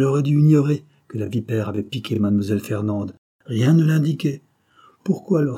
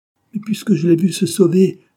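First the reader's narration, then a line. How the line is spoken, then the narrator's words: Exclaimed. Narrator (French): s'écria Léonie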